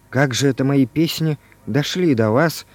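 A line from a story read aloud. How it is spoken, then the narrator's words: Quiet question. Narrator (Russian): спросил Иван Иванович тихо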